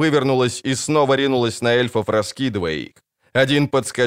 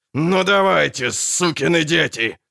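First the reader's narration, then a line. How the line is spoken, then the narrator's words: Growling. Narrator (Russian): рычал Ярпин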